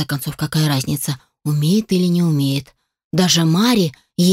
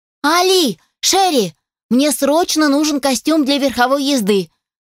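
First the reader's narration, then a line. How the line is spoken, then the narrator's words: Yelled urgently. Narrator (Russian): заорала Сара, врываясь в свои покои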